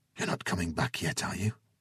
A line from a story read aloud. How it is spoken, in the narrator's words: Lana asked quietly